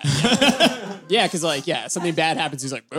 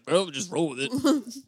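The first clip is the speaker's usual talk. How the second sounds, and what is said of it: Imitates another person's voice. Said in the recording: “That was a good impression.”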